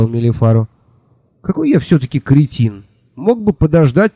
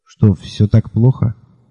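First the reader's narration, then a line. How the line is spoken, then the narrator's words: Quiet question. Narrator (Russian): тихо спросил я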